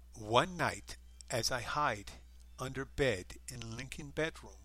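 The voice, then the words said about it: Put-on female Eastern European accent. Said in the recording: “I do want to get someone with a much better female Eastern European accent.”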